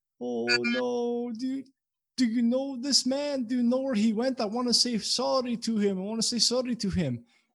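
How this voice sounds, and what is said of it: Put-on accent. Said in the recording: “the accent”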